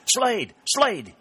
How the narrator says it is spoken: he cried

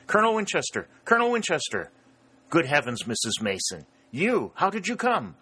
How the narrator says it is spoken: exclaimed

